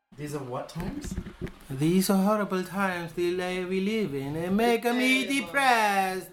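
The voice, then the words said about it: Imitates another person's voice. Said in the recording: “You sound like my impersonation of Pope Francisco. I know he's not Italian”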